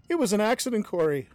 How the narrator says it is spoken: I screamed

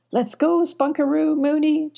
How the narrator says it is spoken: chuckled Abby

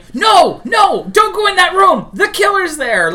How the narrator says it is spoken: when you were in the theater yelling

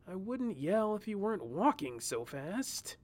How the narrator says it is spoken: he whined as he caught up

